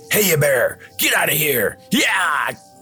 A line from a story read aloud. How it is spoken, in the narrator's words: shouted